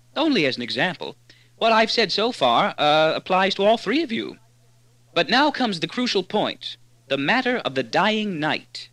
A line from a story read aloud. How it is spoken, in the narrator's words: Earth said blandly